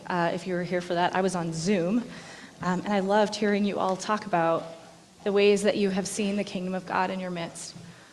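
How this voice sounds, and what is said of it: Hoarse, lower-pitched voice. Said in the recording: “You can probably hear I still have a little laryngitis. My voice is a little more sultry... I had to go down an octave to be able to sing this morning.”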